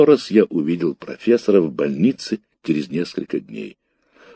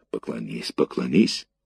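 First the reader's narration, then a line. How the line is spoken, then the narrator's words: Whispered. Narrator (Russian): шепнула мне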